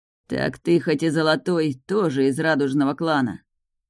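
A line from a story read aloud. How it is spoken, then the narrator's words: Growled. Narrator (Russian): прорычал он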